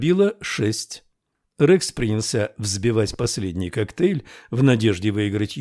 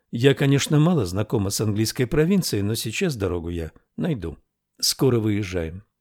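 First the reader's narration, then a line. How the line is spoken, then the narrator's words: Said calmly. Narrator (Russian): спокойно сказала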